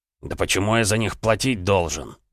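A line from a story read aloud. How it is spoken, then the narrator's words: Mumbled grumble. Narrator (Russian): пробурчал Черкасский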